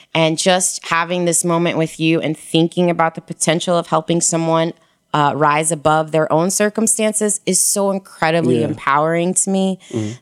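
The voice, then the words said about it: Shaky, nervous voice. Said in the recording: “you can hear the shakiness in my voice ... I'm nervous”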